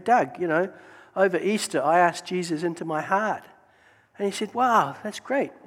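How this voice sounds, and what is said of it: New Zealand accent. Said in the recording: “just in case you're not sure of my accent, this is a map of the world. You'll see New Zealand is right there”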